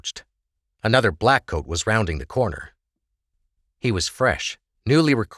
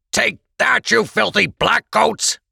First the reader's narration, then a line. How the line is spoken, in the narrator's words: Krebs bellowed